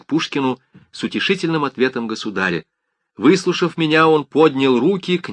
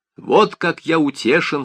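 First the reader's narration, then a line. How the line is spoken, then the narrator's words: Plain. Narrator (Russian): сказал он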